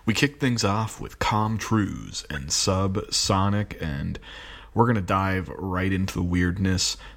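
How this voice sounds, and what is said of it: Tired voice with vocal fry. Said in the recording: “You can hear the vocal fry. I'm tired.”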